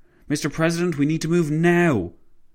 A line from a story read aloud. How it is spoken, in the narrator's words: his driver exclaimed